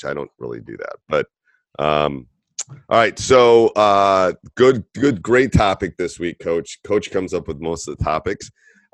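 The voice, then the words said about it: Hoarse, congested sick-sounding voice. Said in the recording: “you can tell by my voice that the cold, the non-stopping entire basketball season cold is still in my voice”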